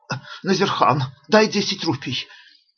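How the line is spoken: Hoarse, breathless voice. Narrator (Russian): Ашока говорил хриплым, задыхающимся голосом

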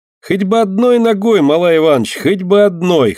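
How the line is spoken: Loud laughter. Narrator (Russian): хохотал Костя

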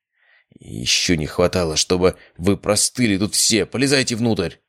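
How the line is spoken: Grumbling. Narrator (Russian): буркнул

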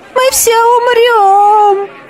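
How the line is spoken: Hysterical scream from crowd. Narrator (Russian): истерично закричал кто-то в толпе

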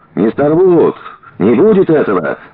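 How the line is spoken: Crowd shouting. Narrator (Russian): закричали в толпе

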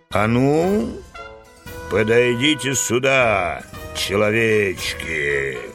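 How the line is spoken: Thunderous menacing command. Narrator (Russian): грозно приказал волшебник, и его голос прозвучал, как раскат грома

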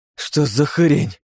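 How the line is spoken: Hoarse rasp. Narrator (Russian): прохрипел Руат

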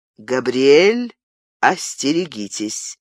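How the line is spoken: Solemn. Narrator (Russian): торжественно сказал герцог де Гиз

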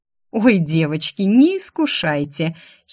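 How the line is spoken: Sudden giggle. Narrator (Russian): хихикнула вдруг я

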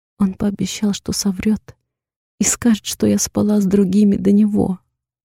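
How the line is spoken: Adding, then sobbing. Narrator (Russian): добавляю следом и снова начинаю рыдать

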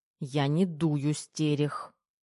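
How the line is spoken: Angry hiss, young woman. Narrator (Russian): Зло прошипела девушка

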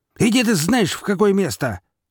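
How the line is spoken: Yelling. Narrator (Russian): заорал Горемыка, обернувшись

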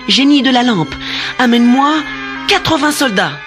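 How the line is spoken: Exclaimed. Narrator (French): s'écria Aladin

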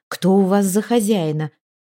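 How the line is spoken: Exclamation. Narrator (Russian): воскликнула она

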